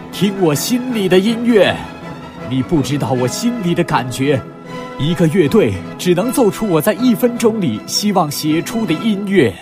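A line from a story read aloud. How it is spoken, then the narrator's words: Loud voice. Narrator (Chinese): 贝多芬对客人大声地说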